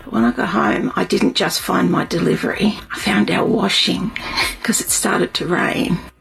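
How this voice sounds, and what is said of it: Australian accent. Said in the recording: “is there anything hotter than an Australian accent? ... with an Australian accent”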